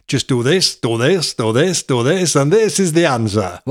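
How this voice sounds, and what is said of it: Put-on Italian accent. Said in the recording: “Why have you done that in an accent? ... I was doing the Italian accent.”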